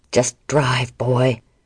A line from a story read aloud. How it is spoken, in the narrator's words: Art snarled